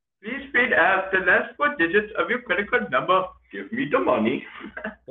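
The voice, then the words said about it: Put-on Indian accent. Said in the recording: “Can you do an Indian accent? ... I can sometimes do an Indian accent.”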